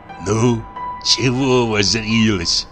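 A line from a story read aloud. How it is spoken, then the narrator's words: Angry whisper. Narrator (Russian): сердито прошептал Савелий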